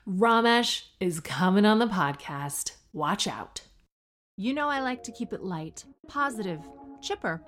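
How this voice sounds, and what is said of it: Canadian-sounding accent. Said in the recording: “I'm not actually Canadian. This is actually just the accent you develop over time when you're 100% optimistic.”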